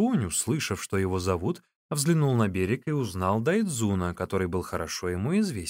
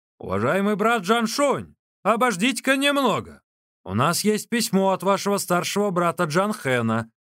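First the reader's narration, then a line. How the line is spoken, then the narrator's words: Shouting. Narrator (Russian): Дайцзун закричал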